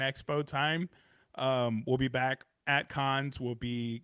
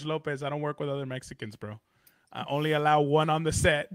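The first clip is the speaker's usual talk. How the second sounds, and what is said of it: Put-on Mexican accent. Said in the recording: “how fast that freaking, like, that accent came out”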